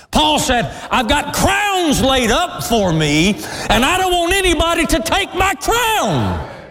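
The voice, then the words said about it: Yelling, loud preaching voice. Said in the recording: “I'm sorry, I'm yelling.”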